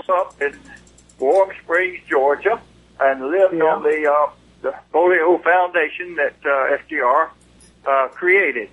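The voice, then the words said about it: Southern Georgia twang. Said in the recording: “you're a Southern boy ... Georgia twang is hard to get rid of”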